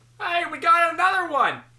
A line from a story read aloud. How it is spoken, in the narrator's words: I yelled to my workers